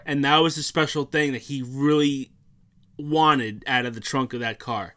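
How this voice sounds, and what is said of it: Choked-up, emotional voice. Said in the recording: “I'm getting choked up again ... I'm not crying”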